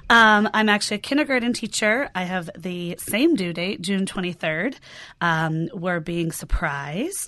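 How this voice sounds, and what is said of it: Voice affected by being sick. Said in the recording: “a little sick, sorry for my voice.”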